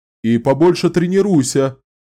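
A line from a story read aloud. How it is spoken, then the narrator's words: Captain shouting after. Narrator (Russian): крикнул вслед капитан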